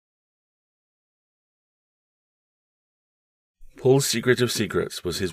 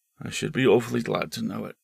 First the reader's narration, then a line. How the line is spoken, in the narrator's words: she said wearily